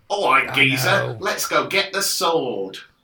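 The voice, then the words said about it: Put-on Cockney accent. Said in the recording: “they've all got Cockney accents”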